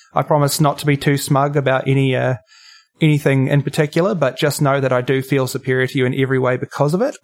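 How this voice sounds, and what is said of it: New Zealand accent. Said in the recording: “You may be able to tell from my accent, if you've got nicely trained ears, that I'm not Australian. I am, in fact, a Kiwi”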